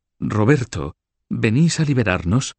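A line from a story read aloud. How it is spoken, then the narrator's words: Exclaimed. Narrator (Spanish): exclamó Blanca de Borgoña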